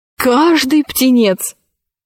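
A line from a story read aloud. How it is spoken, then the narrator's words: Exclaimed. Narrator (Russian): воскликнул он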